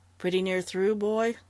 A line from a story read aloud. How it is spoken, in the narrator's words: Strawn, who had been silent and bewildered for a long time, asked anxiously